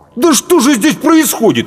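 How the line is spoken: Exclaimed. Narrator (Russian): воскликнул Паводников

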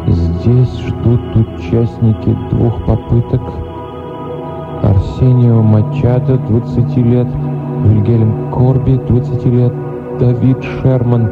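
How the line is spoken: Young woman's whispered reading. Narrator (Russian): девушка прочла шепотом

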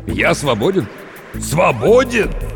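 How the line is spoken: Short laugh. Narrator (Russian): Катя схохотнул

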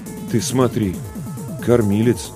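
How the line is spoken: Bewildered mutter. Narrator (Russian): растерянно пробормотал Ларионов

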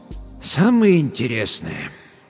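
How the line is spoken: Sighing. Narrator (Russian): доктор вздохнул еще раз

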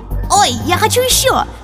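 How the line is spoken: Excited shout. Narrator (Russian): закричал Джонни

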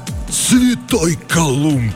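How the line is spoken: Astonished exhale. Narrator (Russian): выдохнул стилет, разинув от удивления рот

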